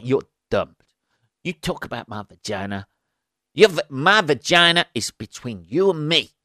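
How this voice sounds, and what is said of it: Put-on accent. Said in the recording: “I don't know why I'm doing it in that accent.”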